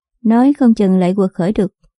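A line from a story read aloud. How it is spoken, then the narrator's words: Sighing. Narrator (Vietnamese): Đàm ma ma thở dài nói tiếp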